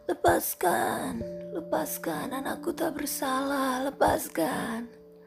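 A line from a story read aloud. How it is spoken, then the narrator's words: Old mother's desperate shout. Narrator (Indonesian): seorang ibu tua akan tertatih-tatih menggedor pintu penjara sambil berteriak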